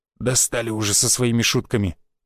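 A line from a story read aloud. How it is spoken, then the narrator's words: Muttered. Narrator (Russian): буркнул рыжий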